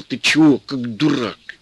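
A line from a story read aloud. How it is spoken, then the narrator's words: Angry hiss. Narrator (Russian): Петька сердито шипел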